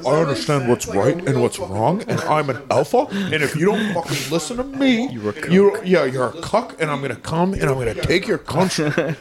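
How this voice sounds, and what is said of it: Weird half American, half British accent. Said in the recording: “In my weird fucking half American, half British accent. ... It is a weird accent.”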